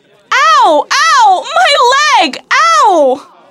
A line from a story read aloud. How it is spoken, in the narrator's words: screamed Sarah as the hot coffee burned her